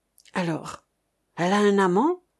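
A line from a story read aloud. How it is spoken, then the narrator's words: Hoarse question. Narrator (French): questionna le marquis d'une voix rauque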